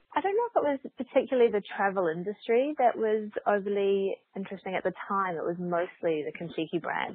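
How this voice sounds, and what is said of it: Australian accent. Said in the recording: “I'm Australian, you can probably tell from the accent.”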